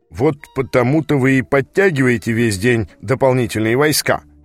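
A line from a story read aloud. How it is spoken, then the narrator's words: Sarcastic question. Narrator (Russian): язвительно спросил Брокхерст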